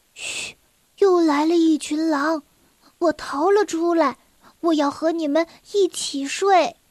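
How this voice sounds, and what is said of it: Quiet, whispered line. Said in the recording (Chinese): “小声地说”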